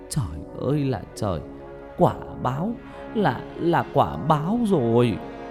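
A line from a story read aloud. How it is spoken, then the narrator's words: Grandmother wailing. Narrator (Vietnamese): bà ngoại của Nhật thì cứ gào khóc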